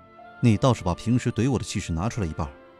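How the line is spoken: Cold. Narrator (Chinese): 冷冷的说道

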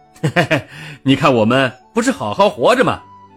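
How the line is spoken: Cheerful, laughing. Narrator (Chinese): 农民笑着说

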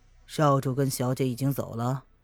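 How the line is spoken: Indifferent question. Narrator (Chinese): 他淡淡的 问

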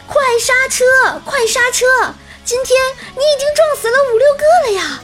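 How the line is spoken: Loud shout. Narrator (Chinese): 我的大喊声

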